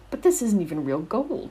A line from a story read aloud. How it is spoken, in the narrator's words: he exclaimed, biting the coin doggedly